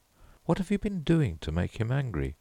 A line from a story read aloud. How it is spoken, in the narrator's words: asked Mrs